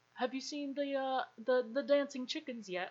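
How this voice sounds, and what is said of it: Poor attempt at British accent. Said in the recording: “oh no, that was a terrible... I'm not gonna do a British accent because that was just awful. I got scared halfway through”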